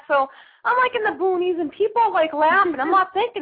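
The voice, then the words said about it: Authentic Boston accent. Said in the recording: “my accent sounds pretty normal... I talk the way I talk because I'm from Boston. It's the way I sound... authentic Boston accent”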